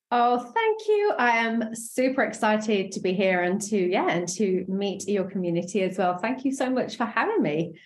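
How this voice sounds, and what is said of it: Speaks with a distinct accent. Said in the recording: “Don't you guys just love her accent? It's divine.”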